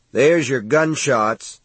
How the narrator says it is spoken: he said, raising his voice to be heard over the wind

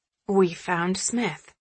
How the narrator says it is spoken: muttering

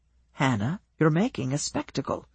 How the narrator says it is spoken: he whispered

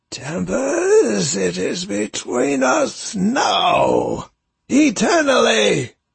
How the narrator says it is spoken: Ascalon snarls

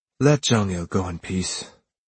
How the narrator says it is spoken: I let out a short sigh and said

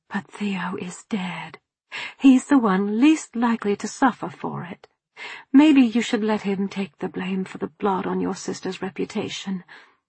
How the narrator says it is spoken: Trying to reason with him, I murmured

